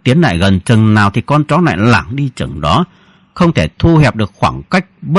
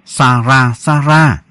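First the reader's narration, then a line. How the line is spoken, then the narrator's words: Soft falsely sweet call. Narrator (Vietnamese): Ba Đức mỉm cười giả dối, mồm méo xẻo khe khẽ gọi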